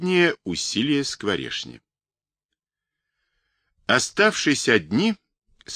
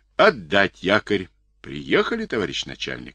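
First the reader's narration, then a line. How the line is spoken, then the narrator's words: Plain. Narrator (Russian): сказал Скворешни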